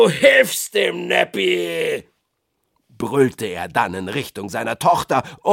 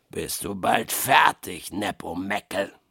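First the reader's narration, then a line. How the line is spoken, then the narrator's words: Grunted. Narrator (German): grunzte Blackbutt jetzt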